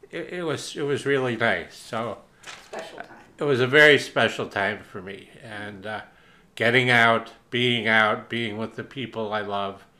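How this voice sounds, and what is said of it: Teary, emotional voice. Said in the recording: “I'm getting a little teary.”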